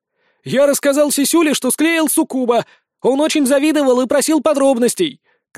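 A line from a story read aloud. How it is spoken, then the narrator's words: Shouting. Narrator (Russian): кричал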